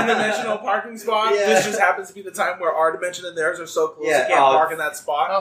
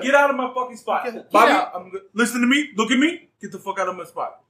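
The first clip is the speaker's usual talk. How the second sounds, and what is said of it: Put-on New York Bronx accent. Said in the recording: “My aliens also always have New York accents ... Why do you sound like you're from the Bronx?”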